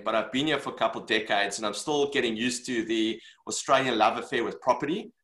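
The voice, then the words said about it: Non-Australian English accent. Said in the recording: “You could probably guess from my accent, I'm not a born and bred Australian”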